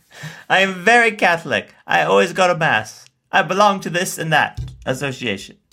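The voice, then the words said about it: Fake Italian accent. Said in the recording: “with that fake Italian accent”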